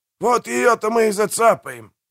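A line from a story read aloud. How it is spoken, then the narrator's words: Growling. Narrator (Russian): прорычал Пиви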